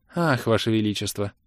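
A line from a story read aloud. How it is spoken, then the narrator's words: Weary ringing voice, soft chuckle. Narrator (Russian): Изнеможденно прозвенела Илли и тихонько усмехнулась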